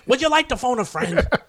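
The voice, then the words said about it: Imitates another person's voice. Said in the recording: “my Regis impersonation”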